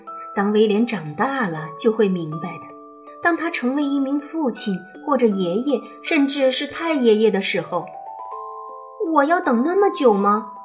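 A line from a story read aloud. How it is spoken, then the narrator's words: Plain. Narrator (Chinese): 威廉问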